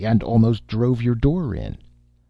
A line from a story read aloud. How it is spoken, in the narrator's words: said impatiently